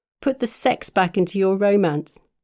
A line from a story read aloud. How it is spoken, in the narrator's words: she said and giggled